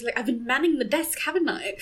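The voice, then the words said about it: Imitates a film character's voice. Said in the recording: “That was a really good impression.”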